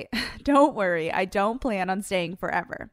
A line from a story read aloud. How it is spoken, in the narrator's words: respond with a lighthearted chuckle and say